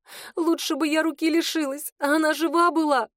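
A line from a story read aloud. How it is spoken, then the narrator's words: Sobbing. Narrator (Russian): рыдала Света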